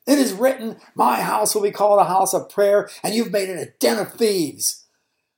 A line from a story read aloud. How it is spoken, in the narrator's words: He was shouting